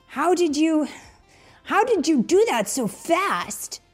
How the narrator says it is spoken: Sonic said as he gasped for breath

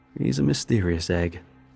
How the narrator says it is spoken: Jacobs chuckled

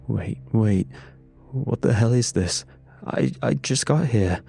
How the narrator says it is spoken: Reed stammered, voice cracking under the weight of sheer panic

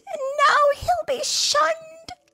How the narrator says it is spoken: she cried

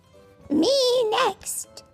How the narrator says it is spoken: cried the witch

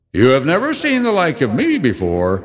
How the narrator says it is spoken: exclaimed the spirit

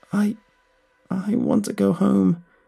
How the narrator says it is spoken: she said in between sobs

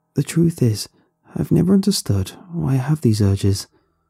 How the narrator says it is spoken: continued in an even tone, as if we were discussing a casual subject

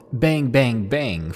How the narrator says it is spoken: to yell

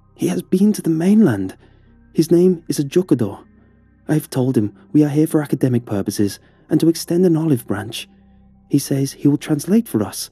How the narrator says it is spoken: announced excitedly

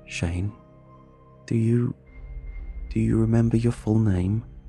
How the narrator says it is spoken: My voice quivered as I asked

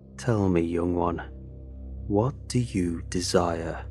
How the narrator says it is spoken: the cloaked figure asked me, his voice raspy and low

